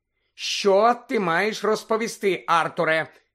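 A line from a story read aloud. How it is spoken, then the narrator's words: Stern, threatening question. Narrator (Ukrainian): грізним тоном перепитала місіс Уізлі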